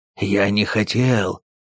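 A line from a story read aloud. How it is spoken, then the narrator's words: Hoarse wheeze. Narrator (Russian): прохрипел он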